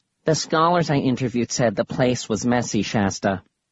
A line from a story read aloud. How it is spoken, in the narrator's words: he said in a kind of nasal voice